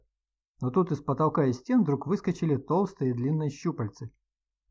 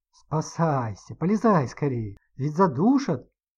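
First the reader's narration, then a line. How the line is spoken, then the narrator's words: Agitated command, man. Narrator (Russian): взволнованно скомандовал дяденька из приемника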